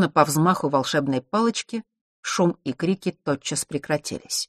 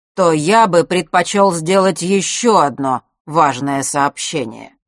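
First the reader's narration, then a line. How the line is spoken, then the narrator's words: Loud, clear over noise. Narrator (Russian): перекрывая гул, неожиданно громко и четко произнес Астариус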